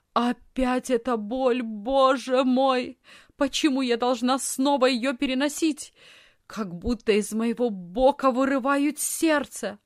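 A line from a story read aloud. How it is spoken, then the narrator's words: Loud moaning scream. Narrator (Russian): громко застонала и закричала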